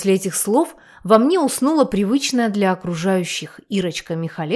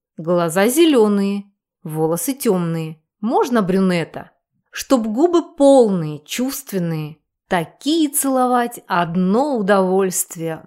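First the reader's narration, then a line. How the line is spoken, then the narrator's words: Dreamy drawl. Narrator (Russian): Протянула мечтательно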